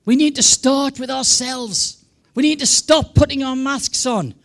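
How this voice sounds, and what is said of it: English, non-American accent. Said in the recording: “as you can tell from my accent, I'm not American ... when I went back to England”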